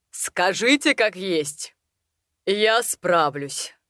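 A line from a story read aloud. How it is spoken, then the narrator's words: Steely voice. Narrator (Russian): проговорил мистер Рэндалл стальным голосом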